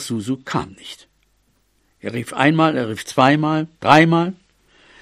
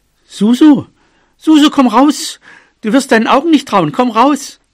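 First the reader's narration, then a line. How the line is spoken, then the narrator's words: Calling out. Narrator (German): Bobo ... rief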